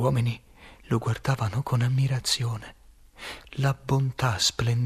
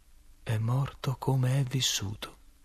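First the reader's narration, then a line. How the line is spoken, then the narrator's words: Sudden, very quiet. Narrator (Italian): All'improvviso mi disse, molto piano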